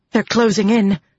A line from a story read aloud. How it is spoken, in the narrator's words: Lilaine said, panting